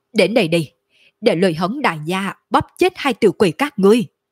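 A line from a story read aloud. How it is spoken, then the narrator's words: Fierce loud bellow. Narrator (Vietnamese): Lôi Hống trên mặt lộ ra vẻ dữ tợn, trong mắt lộ ra chiến ý đậm đặc, cao giọng gào thét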